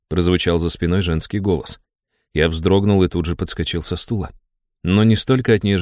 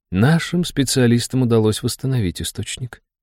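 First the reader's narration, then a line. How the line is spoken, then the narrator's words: Princess, impassive voice. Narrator (Russian): бесстрастным голосом произнесла княжна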